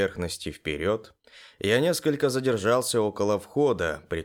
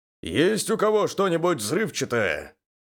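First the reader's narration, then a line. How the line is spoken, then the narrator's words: Shout into the lair. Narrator (Russian): крикнул я вглубь логова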